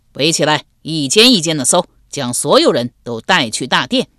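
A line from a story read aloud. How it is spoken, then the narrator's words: Loud shout. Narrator (Chinese): 有人高声喊道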